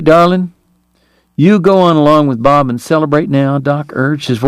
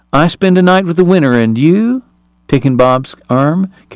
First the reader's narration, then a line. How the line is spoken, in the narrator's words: Kate purred